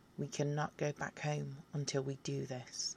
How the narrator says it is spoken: I look down at you with a stern expression and coldly say

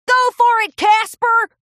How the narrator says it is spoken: a white stallion in a headset shouted

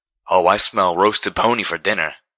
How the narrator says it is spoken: snarled the slaver

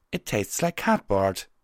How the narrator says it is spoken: she exclaimed

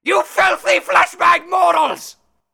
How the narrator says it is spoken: Redentum screamed

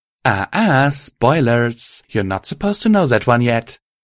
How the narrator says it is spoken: purred

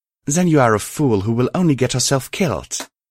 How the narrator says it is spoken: snarled under my breath

